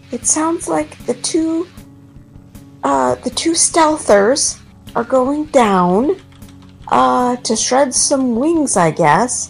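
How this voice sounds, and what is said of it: Speaks quietly, hushed voice. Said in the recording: “I'm saying this quietly.”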